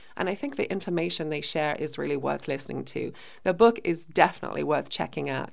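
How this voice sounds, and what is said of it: Croaky, hoarse voice. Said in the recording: “you can probably tell my voice is still really croaky. I'm recovering from bronchitis”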